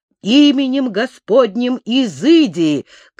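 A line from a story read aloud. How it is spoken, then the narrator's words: Repeated shout. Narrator (Russian): крикнул в третий раз Аввакум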